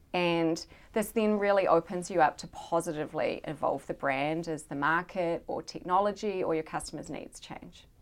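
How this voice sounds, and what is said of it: New Zealand accent. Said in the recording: “I do love listening to a New Zealand accent.”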